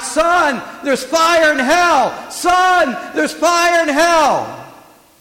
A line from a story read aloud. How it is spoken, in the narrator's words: he kept yelling out